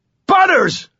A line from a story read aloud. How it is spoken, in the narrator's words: I screamed, helpless to move and furious and terrified